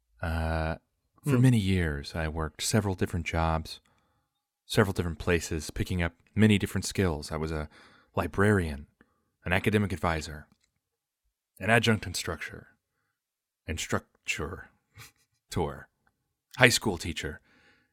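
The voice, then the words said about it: Public radio announcer voice. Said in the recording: “putting on my NPR voice”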